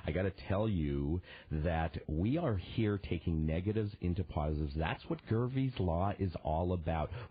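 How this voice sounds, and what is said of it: Sexy voice from yelling. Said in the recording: “I'm getting a little bit sexy with that music. ... With that voice. ... It's my sexy voice. It's from Screaming and Yelling”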